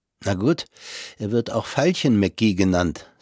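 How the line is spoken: Plain. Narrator (German): sagte

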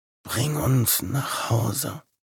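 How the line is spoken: Whispering in ear. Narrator (German): flüsterte Louis ihm ins Ohr

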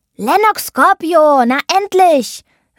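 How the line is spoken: Calling out. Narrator (German): rief Sammy

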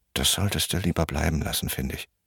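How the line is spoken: Angry mutter. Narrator (German): murmelte Pelle böse

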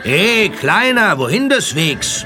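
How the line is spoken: Calling out. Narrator (German): rief einer

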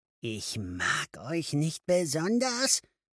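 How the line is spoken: Hissing. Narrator (German): zischte

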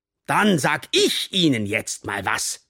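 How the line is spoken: Hiss. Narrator (German): zischte Boyle

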